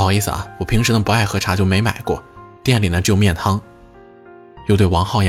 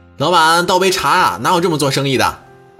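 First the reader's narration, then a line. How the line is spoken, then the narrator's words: Shouting again. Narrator (Chinese): 那个小伙子又开始喊了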